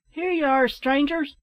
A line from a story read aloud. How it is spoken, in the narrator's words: they cried